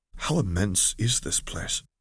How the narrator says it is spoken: Corey asked quietly

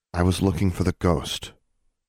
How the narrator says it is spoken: said, in a steady voice

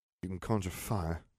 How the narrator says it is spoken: Harry sighed

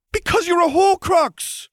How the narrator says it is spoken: Draco yelled, too riled up to stop now

